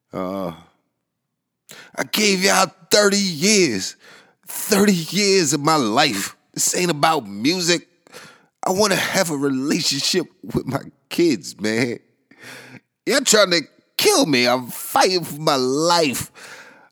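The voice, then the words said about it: Yelling, loud impassioned speech. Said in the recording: “I'm sorry for yelling at y'all ears.”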